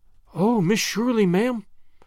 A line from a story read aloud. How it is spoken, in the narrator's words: gasped Charlotta